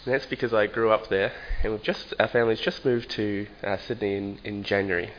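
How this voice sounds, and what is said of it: New Zealand accent. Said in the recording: “you might be able to tell that I have a New Zealand accent.”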